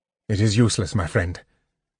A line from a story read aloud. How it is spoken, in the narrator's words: Tanis said quietly to Sturm